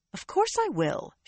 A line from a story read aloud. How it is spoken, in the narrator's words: she said indignantly